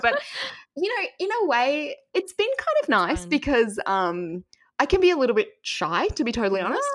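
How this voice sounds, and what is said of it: Australian accent. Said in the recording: “I heard your accent ... my voice was a little unusual ... y'all's accent is amazing ... Australia is one of the best ones”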